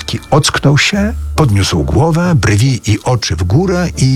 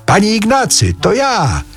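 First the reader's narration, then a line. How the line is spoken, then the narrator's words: Newcomer shouting into ear. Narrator (Polish): przybysz krzyknął mu w ucho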